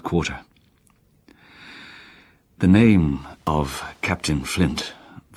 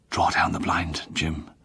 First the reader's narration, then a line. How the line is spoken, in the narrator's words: whispered